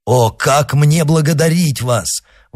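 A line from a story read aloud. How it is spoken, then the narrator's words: Old man exclaiming. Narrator (Russian): воскликнул старый господин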